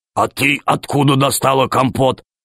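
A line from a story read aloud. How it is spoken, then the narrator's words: Stern question. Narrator (Russian): спросил Громозека строго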